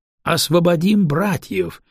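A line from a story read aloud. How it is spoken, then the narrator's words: Joyful crowd echo. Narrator (Russian): радостно подхвачен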